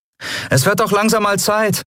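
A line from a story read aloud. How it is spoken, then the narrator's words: Called back. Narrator (German): rief Endriel zurück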